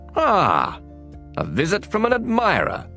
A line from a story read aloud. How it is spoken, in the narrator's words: he exclaimed